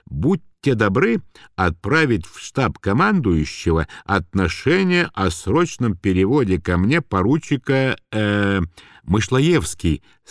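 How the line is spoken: Plain. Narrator (Russian): сказал Козырнов

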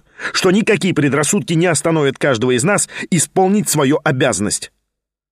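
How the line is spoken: Sharp, sudden. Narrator (Russian): резко прибавил он вдруг

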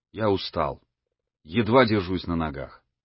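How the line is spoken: Plain. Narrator (Russian): сказал он Пантелеймону

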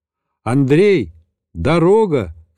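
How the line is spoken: Shouted upward. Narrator (Russian): крикнул вверх

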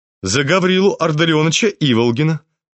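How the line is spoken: Sharp, firm, clear. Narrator (Russian): продолжал Настасья Филипповна по-прежнему резко, твердо и четко

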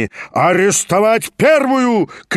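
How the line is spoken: Menacing shout. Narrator (Russian): крикнул тот, грозно наводя на нее свой перст

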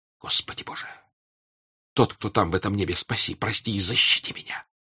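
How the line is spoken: Whispering to himself. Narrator (Russian): прошептал про себя Ростов

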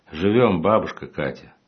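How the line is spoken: Loud, from another room. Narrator (Russian): Из комнаты донеслась громко сказанная фраза

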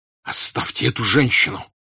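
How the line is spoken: Furious hoarse voice. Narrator (Russian): Бешеным голосом прохрипел Пьер

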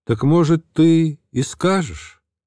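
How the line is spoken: Loud, carrying across hall. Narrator (Russian): громко сказал на весь зал

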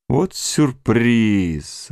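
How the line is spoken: Grumbling. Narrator (Russian): ворчал

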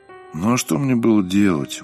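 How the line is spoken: Dejected. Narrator (Russian): уныло проговорил Сергей

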